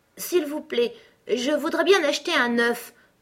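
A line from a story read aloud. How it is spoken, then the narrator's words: Timid. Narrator (French): reprit-elle timidement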